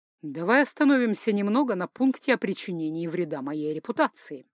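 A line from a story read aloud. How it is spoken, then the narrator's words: Calm voice. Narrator (Russian): проговорил Ральф спокойным голосом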